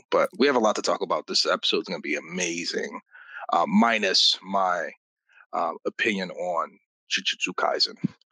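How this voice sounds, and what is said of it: Slightly tired-sounding voice. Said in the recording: “I sound a little tired.”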